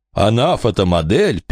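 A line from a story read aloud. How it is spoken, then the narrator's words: Mocking mimicry, laughing. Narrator (Russian): передразнил Чарльз и рассмеялся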